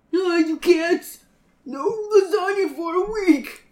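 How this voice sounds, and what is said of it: Old man character voice. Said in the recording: “That's my John impression. ... It's pretty good. ... Yes, he's an old man.”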